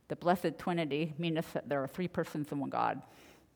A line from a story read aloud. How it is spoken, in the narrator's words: A little girl with a lisp replies